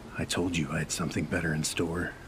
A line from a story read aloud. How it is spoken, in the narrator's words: whispered